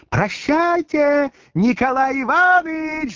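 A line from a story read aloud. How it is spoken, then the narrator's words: Shouting while dancing. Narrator (Russian): закричала Маргарита, приплясывая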